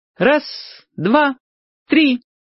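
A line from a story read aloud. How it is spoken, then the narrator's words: Child's ringing voice counting. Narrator (Russian): начал считать Юрчик звонким своим голоском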